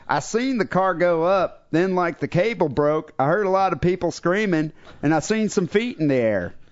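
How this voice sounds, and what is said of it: Imitated Kentucky hillbilly accent. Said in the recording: “Kentucky hillbilly... That's a pretty good accent... Yeah, actually not that bad.”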